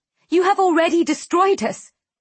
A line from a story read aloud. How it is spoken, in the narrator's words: I shout